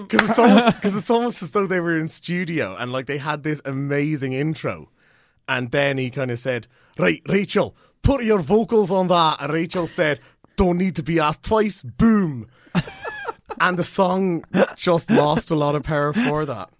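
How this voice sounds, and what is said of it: Put-on Scottish accent. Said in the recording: “Stuart Braithwaite is Scottish, so I can. ... You going to do the accent? ... Yeah. ... That was amazing. ... That was really good.”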